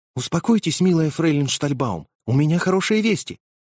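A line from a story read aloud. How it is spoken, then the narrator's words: Thin little voice. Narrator (Russian): сказав тоненьким голоском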